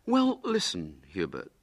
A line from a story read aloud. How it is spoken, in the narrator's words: said William kindly